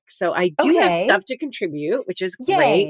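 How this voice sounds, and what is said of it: Sick-sounding voice. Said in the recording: “as people can probably hear from my voice, I have been under the weather.”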